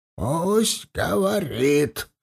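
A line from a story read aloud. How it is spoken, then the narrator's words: Gloomy creaky voice. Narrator (Russian): проскрипел он мрачно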